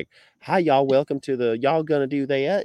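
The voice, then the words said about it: Imitated Virginia Southern accent. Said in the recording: “they're all talking like, hi, y'all ... The Virginia accent is strong once you leave campus”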